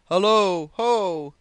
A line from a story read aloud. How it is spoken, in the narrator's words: roared the captain again, in a voice that might have started a dead walrus